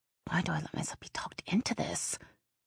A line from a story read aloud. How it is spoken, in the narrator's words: She muttered